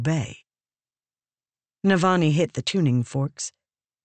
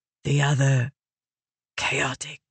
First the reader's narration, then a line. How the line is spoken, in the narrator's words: Raboniel whispered